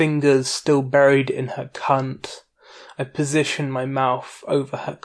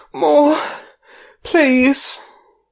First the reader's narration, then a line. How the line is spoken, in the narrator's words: her gasp out